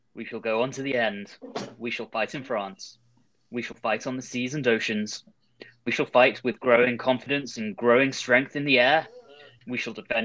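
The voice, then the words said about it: Winston Churchill impression. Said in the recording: “my Churchill impression isn't that great. So I'm going to do this somewhat with his inflection”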